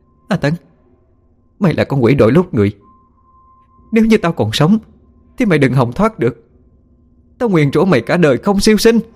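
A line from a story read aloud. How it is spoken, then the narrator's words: Shouting. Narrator (Vietnamese): A Mỹ hét lên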